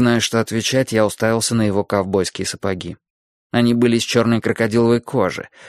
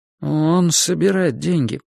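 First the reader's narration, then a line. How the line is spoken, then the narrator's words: Awkward mumble. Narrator (Russian): неловко промямлил я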